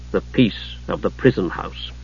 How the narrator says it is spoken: the god Paladine saying bitterly

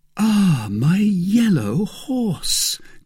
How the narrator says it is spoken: cried

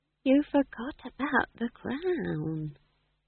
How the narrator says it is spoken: whispered Nanny Ogg

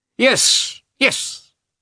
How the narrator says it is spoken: cried in a shrill voice

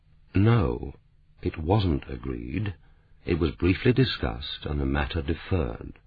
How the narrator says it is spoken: DeWitt said quietly and slowly, as if to a recalcitrant child

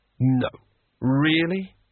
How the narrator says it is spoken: said Rincewind wearily

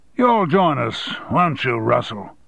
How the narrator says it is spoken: boomed at his attorney, making it sound more like a command than an invitation

